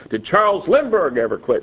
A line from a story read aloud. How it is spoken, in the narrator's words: he yelled